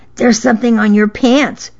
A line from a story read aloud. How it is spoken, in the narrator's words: she whispered